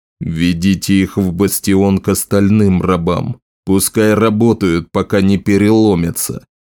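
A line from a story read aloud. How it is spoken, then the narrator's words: Growled. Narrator (Russian): прорычал Скорбь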